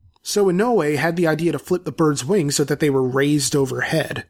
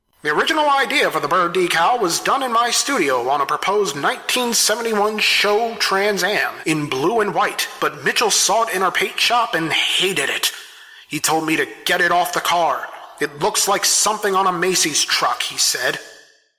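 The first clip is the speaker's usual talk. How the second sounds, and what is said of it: Put-on transatlantic accent. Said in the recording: “Why did I give him a transatlantic accent?”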